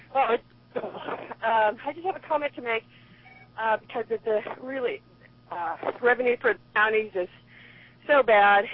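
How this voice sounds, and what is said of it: Slightly out of breath. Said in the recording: “I'm on the river trail now, so I'm a little out of breath.”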